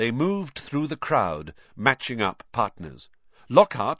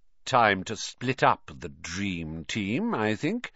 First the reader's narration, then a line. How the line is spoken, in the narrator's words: he sneered